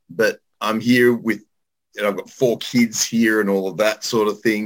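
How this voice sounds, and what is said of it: Mellowed Australian accent. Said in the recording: “the Australian accent is kind of stuck... Mellowed somewhat”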